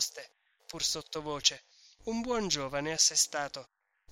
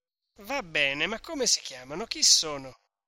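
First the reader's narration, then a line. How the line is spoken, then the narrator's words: Rather rude, insistent. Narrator (Italian): insistette, con voce alquanto sgarbata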